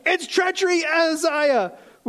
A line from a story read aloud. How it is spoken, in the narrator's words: Joram turned around and fled, and shouting to Ahaziah